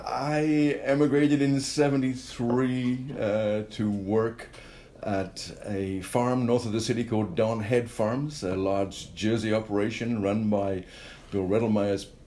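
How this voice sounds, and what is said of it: Slight non-Canadian accent. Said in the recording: “You have a bit of an accent. Well, we Canadians think you have a bit of an accent.”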